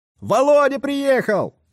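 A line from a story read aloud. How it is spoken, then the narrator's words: Shout from the yard. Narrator (Russian): крикнул кто-то на дворе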